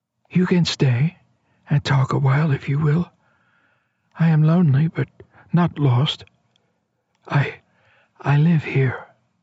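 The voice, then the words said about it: Girl's voice, little more than whisper. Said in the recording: “The voice was little more than a whisper, but it had carried clearly. A girl's voice”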